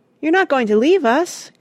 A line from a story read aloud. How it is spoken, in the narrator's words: cried Joe